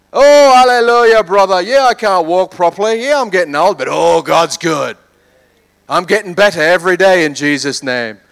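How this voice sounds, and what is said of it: Badly done put-on accent. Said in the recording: “That's a terrible accent. ... It's almost as bad as the Queen's accent.”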